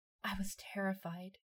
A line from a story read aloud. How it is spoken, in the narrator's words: whispered in a quivering voice